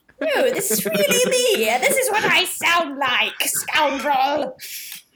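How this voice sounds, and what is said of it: Shifting put-on accent. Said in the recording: “Your accent changes every couple of seconds.”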